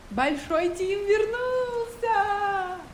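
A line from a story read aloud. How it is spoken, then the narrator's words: Joyful shout. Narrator (Russian): Закричала от радости Мила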